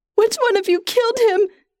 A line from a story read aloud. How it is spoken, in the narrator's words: She cries